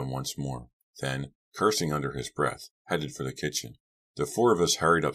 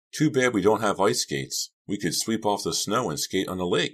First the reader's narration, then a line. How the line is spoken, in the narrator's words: cried, a bit overwhelmed by the unbelievable beauty of the scene